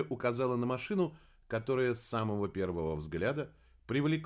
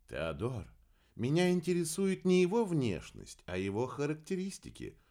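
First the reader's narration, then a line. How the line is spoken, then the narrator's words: Gentle reply. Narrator (Russian): мягко ответила Кира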